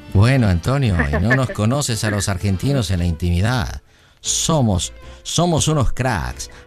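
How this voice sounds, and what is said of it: Argentine Spanish accent. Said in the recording (Spanish): “me gusta el acento argentino, siempre me ha gustado cómo hablan y todo eso, o sea, como que muy sexy, muy sensual”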